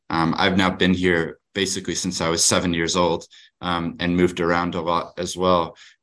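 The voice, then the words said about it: Speaks with a foreign accent. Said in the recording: “As you can probably tell from my accent, I have overseas connections”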